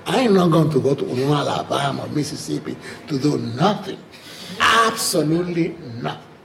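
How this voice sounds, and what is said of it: Speaks with a noticeable accent. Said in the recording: “I'm a regular black-looking person with this accent.”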